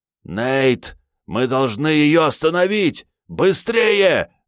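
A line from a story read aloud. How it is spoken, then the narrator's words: Shouted. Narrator (Russian): закричал Рю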